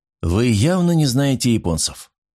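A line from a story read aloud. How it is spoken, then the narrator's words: Weary. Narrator (Russian): устало произнес Старпом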